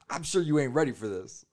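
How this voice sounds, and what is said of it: Imitates another person's voice. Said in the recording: “Do that voice again ... That's my Samuel L. Jackson impression. ... You're just a generic black guy. ... Yeah, that's Samuel's voice.”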